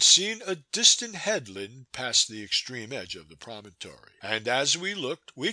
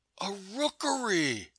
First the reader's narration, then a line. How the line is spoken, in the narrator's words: I cried